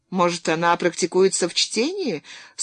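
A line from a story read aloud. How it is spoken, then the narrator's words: Dry remark. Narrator (Russian): сухо заметил посыльный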